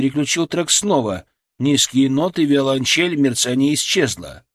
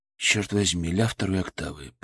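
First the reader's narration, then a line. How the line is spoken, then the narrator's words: Muttered. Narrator (Russian): пробормотал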